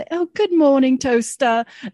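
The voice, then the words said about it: Put-on accent, admittedly bad. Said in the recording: “sorry, my bad accent.”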